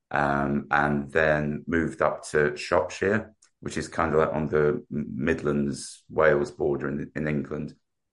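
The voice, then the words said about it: South London English accent. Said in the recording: “as you can tell by my accent... Grew up in South London.”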